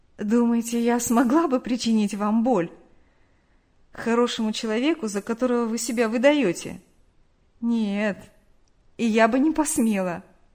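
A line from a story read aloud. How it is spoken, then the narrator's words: Said after laughter. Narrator (Russian): Они рассмеялись, и Нэнси сказала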